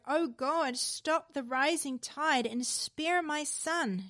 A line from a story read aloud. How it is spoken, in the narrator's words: pleaded